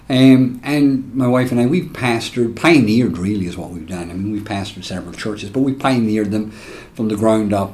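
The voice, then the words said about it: Irish accent. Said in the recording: “I'm not from Alabama. The accent's just a bit off. I'm from Ireland, born and reared”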